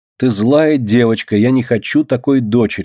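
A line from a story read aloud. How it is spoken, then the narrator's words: Plain. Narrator (Russian): сказала она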